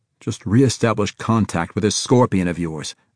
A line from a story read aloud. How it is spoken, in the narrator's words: Allen snapped